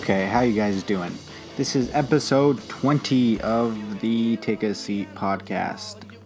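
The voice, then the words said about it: Quiet, subdued speaking voice. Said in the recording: “not talking too loud”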